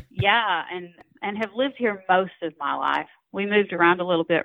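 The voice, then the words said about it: North Georgia accent. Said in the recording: “I grew up about 30 minutes south of Chattanooga, Tennessee, in Dalton, Georgia. I know you can't tell that listening to this accent.”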